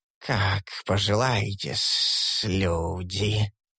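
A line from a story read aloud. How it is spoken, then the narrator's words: Hissing. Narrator (Russian): прошипел Василиск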